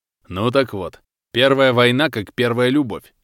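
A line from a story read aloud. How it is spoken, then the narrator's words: Laughing chuckle. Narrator (Russian): хохотнул Федор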